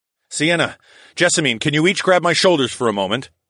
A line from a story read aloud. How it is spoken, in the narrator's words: called out through the rushing of the waves